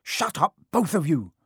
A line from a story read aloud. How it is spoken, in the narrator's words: said Harry sharply